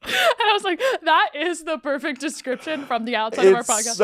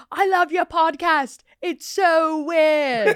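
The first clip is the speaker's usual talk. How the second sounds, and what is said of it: Attempted Irish accent. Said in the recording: “I can't do an Irish accent”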